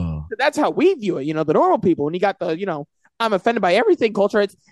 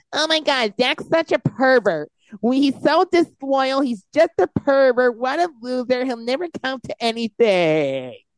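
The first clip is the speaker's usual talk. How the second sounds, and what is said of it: Mocking impression of easily offended people. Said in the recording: “That's a good impersonation of how I think they would sound as well. ... I lost my breath there a little bit.”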